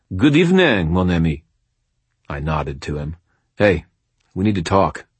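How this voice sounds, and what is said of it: Accurate French accent. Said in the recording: “in the hideously accurate French accent he used in public”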